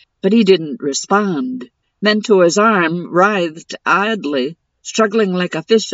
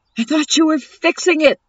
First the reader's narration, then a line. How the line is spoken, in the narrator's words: Zephyr yelled